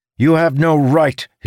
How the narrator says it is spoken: he shouted

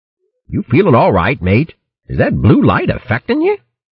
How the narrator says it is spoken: Troby chuckled happily

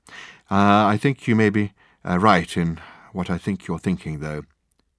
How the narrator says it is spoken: he added quietly

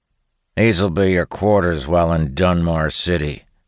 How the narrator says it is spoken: says in a rough voice

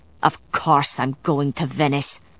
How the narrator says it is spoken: Galloglass growled

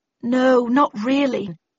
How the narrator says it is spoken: I muttered

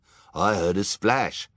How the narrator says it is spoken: cried someone

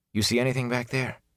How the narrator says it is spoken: he asked quietly

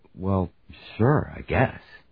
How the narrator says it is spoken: he mumbled

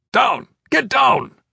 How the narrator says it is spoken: Iron Fist shouted

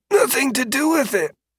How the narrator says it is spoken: he croaked

